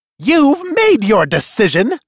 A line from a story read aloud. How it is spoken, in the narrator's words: snarled Jostel